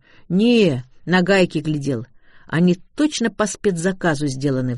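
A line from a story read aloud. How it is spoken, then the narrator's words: Sigh. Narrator (Russian): вздохнул парень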